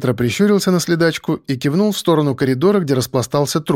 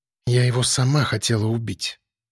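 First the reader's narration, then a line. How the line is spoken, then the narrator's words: Quiet eerie possessed mumble. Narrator (Russian): тихо пробубнила девушка каким-то загробным и будто не своим голосом, словно в нее вселился демон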